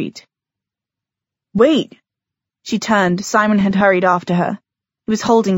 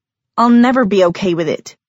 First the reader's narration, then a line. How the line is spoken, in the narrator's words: Clary snapped